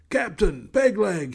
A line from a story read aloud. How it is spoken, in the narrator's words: he hollered